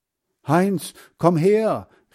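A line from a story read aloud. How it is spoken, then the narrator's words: Calling. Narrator (German): rief Hans Frieder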